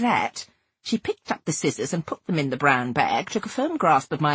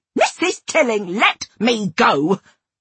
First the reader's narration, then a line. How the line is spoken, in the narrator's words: I snarled